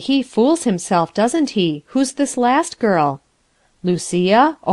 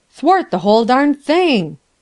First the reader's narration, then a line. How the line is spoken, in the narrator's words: Sinclair exclaimed emphatically